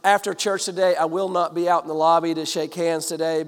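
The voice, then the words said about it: Froggy, hoarse voice. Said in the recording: “my throat a little bit froggy today? ... I have a little cold. ... a little froggy”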